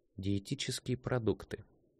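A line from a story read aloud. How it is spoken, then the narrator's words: Mutter. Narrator (Russian): пробормотала она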